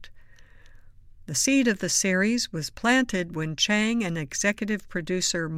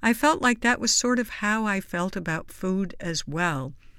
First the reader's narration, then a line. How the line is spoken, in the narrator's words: says Chang